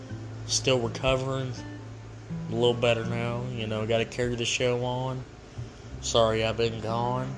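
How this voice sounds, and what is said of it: Dead, sick-sounding voice. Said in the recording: “My voice sounds dead because I've been sick.”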